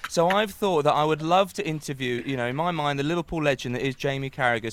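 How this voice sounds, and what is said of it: Liverpool accent. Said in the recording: “I'm a massive Liverpool fan. You can tell by my accent.”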